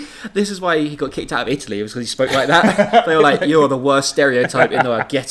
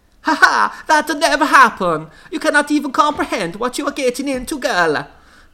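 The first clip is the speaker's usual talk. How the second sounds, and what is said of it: Put-on heavy Italian accent. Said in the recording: “spoke in a heavy Italian accent”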